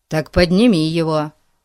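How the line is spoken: Snapping retort. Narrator (Russian): огрызнулся Пип

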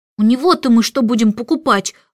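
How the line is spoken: Desperate exclamation. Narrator (Russian): в отчаянии воскликнул Майкл, так как кошелек Мэри Поппинс стал совсем тощим

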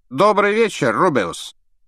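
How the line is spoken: Loud. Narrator (Russian): громко произнес Реддл

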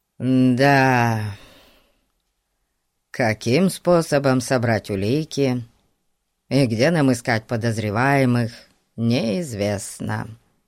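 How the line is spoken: Dejected repetition. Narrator (Russian): уныло повторил Ларри

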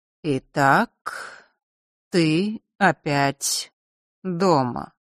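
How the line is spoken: Slow speech. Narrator (Russian): медленно произнес отец

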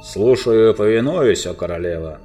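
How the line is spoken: Growled. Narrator (Russian): прорычал волк

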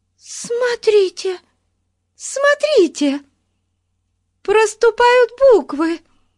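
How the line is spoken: Excited shout. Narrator (Russian): возбужденно закричала Бетси

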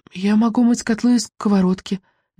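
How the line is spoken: Unsure, hesitant. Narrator (Russian): неуверенно добавила Мелисенда

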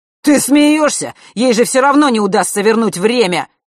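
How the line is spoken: Near-howling exasperation. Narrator (Russian): Марк чуть не взвыл

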